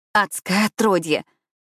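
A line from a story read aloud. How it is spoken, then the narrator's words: Exclamation. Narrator (Russian): воскликнула я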